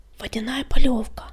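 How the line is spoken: Whisper. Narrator (Russian): прошептал он

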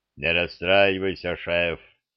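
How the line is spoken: Booming troll voice. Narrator (Russian): прогудел тролль

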